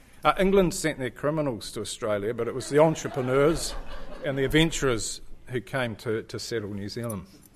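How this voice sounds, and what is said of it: New Zealand accent. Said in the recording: “the lady heard my accent ... well, from New Zealand”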